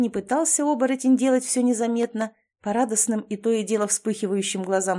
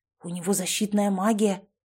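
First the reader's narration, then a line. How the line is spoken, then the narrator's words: Warriors whispering together. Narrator (Russian): начали перешептываться воины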